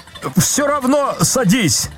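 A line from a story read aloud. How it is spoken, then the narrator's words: Desperate shout. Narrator (Russian): закричал Козлевич отчаянно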